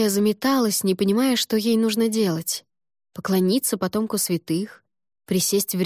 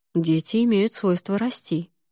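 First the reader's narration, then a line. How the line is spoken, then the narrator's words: Plain. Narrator (Russian): ответил он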